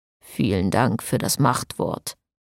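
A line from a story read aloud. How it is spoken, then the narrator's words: Pontiff's murmur. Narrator (German): murmelte der Pontifex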